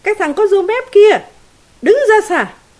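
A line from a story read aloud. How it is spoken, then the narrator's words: Shouting. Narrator (Vietnamese): thầy đội la lên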